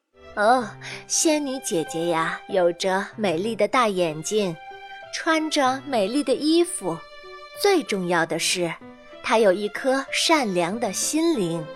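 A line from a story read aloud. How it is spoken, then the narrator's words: Gentle mother. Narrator (Chinese): 妈妈温柔地说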